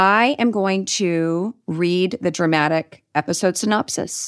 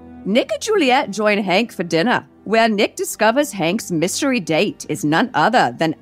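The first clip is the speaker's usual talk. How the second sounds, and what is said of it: Deliberately bad Irish accent. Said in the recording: “I'm going to do it in my really bad Irish accent.”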